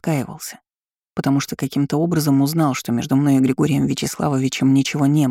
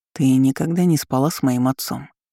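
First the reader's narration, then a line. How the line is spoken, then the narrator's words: Hollow muffled voice. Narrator (Russian): Голос бывшего мужа прозвучал глухо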